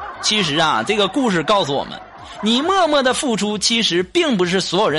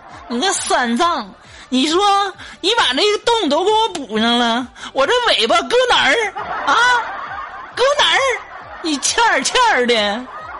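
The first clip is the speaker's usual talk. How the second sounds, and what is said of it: Sun Wukong with northeastern accent. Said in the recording (Chinese): “这孙悟空听这口音，怎么感觉跟我挺近的呢？ ... 难道这悟空他也是东北的吗？”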